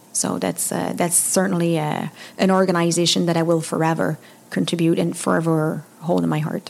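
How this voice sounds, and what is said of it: Non-English accent. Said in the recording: “remove the accent and make me sound more English”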